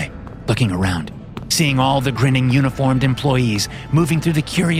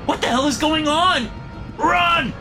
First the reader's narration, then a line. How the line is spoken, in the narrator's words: I shout